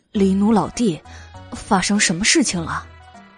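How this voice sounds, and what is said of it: Quiet, soft-spoken line. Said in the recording (Chinese): “小声”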